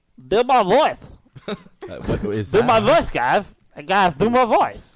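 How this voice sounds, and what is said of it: Imitates another person's voice. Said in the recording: “do his voice, so I guess this would be Blake's voice ... That's his voice.”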